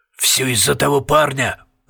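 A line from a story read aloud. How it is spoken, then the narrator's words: Muttered. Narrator (Russian): пробормотал Пуст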